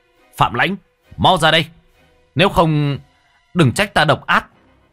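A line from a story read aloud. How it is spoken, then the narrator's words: Man screaming from outside. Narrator (Vietnamese): Tiếng một người đàn ông gào thét ở bên ngoài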